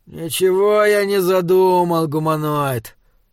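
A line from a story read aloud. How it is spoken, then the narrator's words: Tired, heavy sigh. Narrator (Russian): устало сказал Ксок Сарла и тяжело вздохнул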